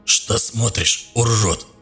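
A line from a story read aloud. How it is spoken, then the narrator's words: Hoarse croak, parched lips. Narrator (Russian): ссохшимися губами прохрипел Гарик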